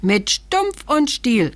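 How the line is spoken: Little man calling out. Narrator (German): rief das Männchen

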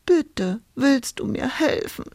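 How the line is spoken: Sobbing plea. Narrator (German): schluchzte Hulda

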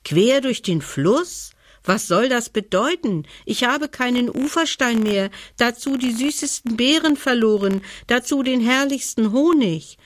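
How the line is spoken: Bear calling out. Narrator (German): rief der Bär

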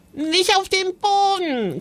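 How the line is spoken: Shrieking. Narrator (German): kreischte Joris

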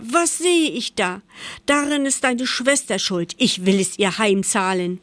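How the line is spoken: Mother shouting. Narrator (German): schrie die Mutter

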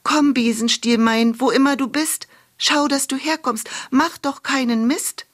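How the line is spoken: Calling out. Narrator (German): rief sie

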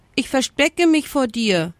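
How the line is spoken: Brusque answer. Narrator (German): antwortete der Strauß schroff

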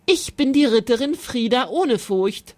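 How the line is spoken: Plain. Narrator (German): sagte sie

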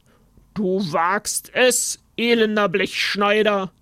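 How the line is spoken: Bellowing. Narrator (German): brüllte er

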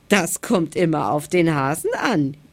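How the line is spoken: Giggling. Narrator (German): kicherte der Igel

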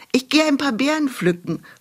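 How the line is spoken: Calling out. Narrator (German): rief sie ihrer Mutter zu

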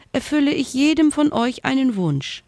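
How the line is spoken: Squeaky voice. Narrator (German): piepste sie

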